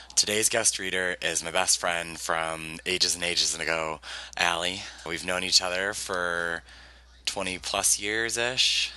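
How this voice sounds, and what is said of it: Worn-out, hoarse voice. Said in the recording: “my voice is a little shot ... went out really hard on Friday, so that's why I sound like this.”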